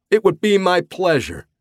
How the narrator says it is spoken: Denno said with a laugh

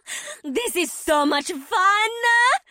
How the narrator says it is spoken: Lizanne's voice cackled

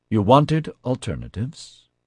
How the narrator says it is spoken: Natasha said in an accusing tone

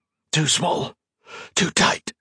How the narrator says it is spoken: he hissed

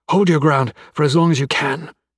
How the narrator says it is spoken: wheezed

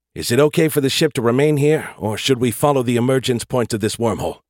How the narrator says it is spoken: I asked quickly, while I still had his attention

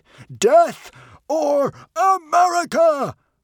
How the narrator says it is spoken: roared Norbert the Nutjob

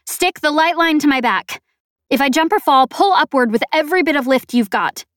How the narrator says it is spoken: I shouted

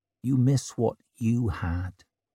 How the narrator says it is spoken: she said softly

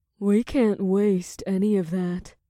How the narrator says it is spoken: Naomi purred

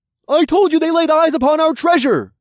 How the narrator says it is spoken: the mole man who'd hit me exclaimed

